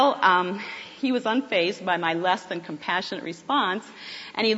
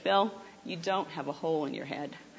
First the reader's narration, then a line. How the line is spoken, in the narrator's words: very calmly and in my professional nurse way responded back to him and said